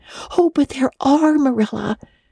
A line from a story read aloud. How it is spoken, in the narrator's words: cried Anne eagerly